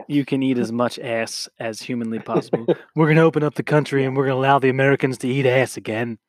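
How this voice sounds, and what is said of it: Imitates another person's voice. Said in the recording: “That's not a good impression. ... That was a great impression.”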